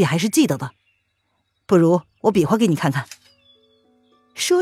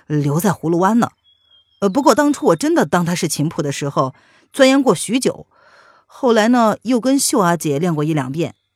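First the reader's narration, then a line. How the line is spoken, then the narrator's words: Laughing. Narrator (Chinese): 沈轩笑着说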